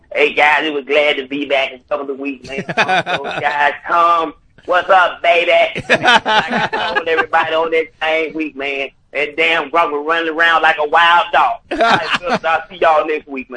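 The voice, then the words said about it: Imitates another person's voice. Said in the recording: “I want to leave you guys with another impersonation”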